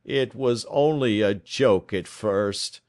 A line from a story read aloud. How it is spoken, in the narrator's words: groaned our visitor